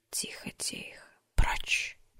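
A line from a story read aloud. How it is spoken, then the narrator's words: Repeated whisper. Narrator (Russian): повторил шепот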